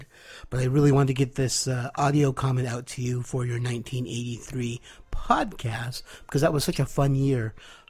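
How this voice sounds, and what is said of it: Congested, stuffy voice. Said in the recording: “Excuse my voice. I'm actually not feeling so well, and I'm a little congested.”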